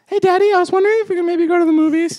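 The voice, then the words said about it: Imitating a young son's voice. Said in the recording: “That's a pretty good impression. ... You sound just like him.”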